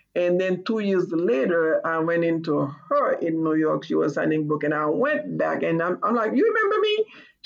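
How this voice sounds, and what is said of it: Speaks with a noticeable accent. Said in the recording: “I have this accent”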